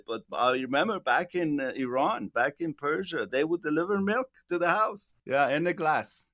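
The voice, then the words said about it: Persian accent. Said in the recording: “I'm Persian descendant. I don't know if people can detect my accent, but a lot of people, when they call, that's probably their fourth or fifth question. Where are you from”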